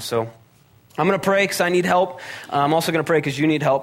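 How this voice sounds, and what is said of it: Growly, sick-sounding voice. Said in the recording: “I'm a little under the weather. My voice is a little growlier than usual ... just deal with some sinus nonsense”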